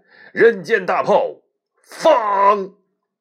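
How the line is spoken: Shouted. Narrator (Chinese): 他就喊了一声

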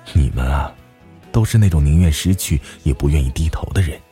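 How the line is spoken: Sighing. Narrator (Chinese): 我叹了一口气说

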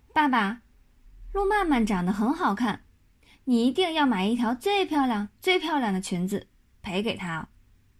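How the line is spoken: Earnest child. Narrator (Chinese): 马小跳很认真的对马天笑先生说

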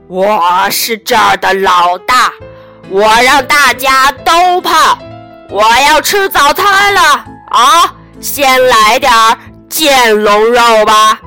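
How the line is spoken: Roaring and bellowing. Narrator (Chinese): 泰伦大吼大叫

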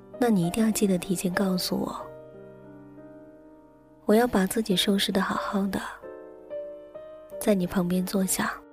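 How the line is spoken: Tender. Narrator (Chinese): 一脸温柔的对我说

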